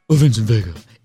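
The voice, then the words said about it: Weird low voice imitating Mia Wallace. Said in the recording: “in a weird low voice? ... I don't really do impressions, obviously, but it's just like,”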